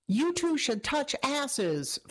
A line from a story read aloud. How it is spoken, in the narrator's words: Floppy Hair yelled